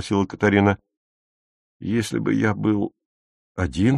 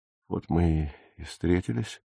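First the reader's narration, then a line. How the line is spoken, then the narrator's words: Quiet. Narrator (Russian): тихо сказал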